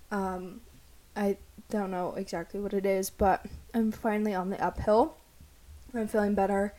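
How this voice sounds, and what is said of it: Slightly sick, under-the-weather voice. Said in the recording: “I'm sure you can hear in my voice that I'm a little under the weather right now.”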